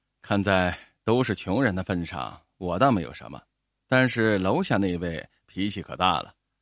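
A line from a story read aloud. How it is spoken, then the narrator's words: Helpless sigh. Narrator (Chinese): 沃克叹了一口气，无奈的说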